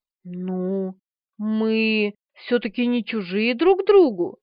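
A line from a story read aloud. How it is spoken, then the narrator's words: Hesitant objection. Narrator (Russian): неуверенно возразила она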